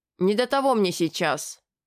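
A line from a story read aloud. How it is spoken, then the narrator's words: Old man grumbling. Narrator (Russian): проворчал в ответ старый маг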